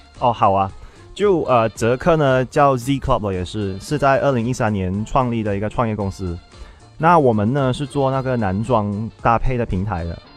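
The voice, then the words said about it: Malaysian Chinese accent in Mandarin. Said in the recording (Chinese): “口音很特别 ... 我是呢马来西亚华裔”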